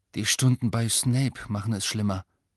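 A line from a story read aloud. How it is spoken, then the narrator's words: Flat, toneless. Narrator (German): sagte Harry tonlos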